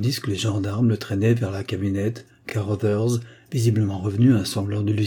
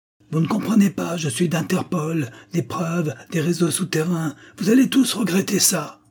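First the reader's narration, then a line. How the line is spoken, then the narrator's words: Muffled final scream. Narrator (French): Un dernier hurlement fut étouffé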